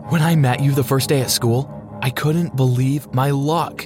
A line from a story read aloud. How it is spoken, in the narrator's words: she said